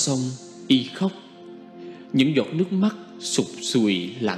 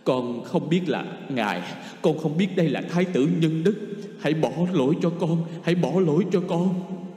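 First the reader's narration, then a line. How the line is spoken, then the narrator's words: Sudden stammering plea. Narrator (Vietnamese): chợt quỳ xuống lắp bắp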